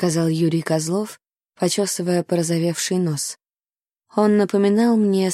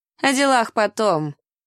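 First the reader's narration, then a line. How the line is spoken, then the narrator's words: Laughing. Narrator (Russian): засмеялся Дикон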